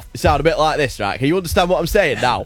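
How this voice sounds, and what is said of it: Put-on northern English accent. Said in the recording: “Give us the north of England accent ... Well, in north ... Not that well.”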